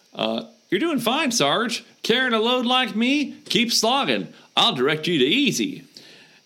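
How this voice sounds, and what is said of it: Put-on Southern American accent. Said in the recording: “I did a southern accent”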